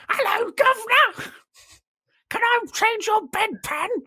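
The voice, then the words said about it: Victorian common woman accent. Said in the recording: “the accent most of the women have, who are common... Common women. Common women from the Victorian era.”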